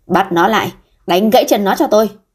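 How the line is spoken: Angry old man. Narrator (Vietnamese): ông cụ tức giận nói

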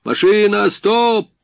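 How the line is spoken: Captain shouting through megaphone. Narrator (Russian): Капитан повернул к себе медный наконечник рупора и крикнул

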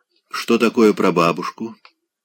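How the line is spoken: Quiet, breath held. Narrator (Russian): спросил тихо Райский, притаив дыхание

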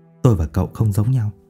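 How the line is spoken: Muttered to himself. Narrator (Vietnamese): Ông … miệng lẩm bẩm

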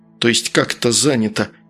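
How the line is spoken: Breathless pained indignant mutter. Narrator (Russian): прерывисто дыша от боли и негодования пробормотал Антон

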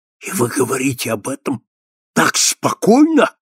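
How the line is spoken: Astonished exclamation. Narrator (Russian): воскликнул американец, пораженный ее смелостью

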